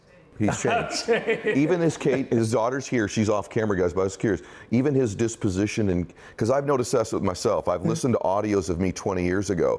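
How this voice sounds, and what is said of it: Deep voice, talks quickly. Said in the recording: “I still have a deep voice. I'm still aggressive. I still talk quickly”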